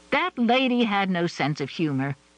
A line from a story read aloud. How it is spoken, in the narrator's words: Adrienne scoffed